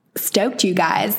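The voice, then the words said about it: Put-on American accent. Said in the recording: “who's not American, will be like, stoked? ... I'm not going to do that accent again”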